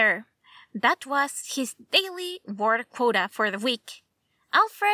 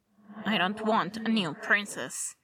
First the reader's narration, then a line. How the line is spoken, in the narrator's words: muttered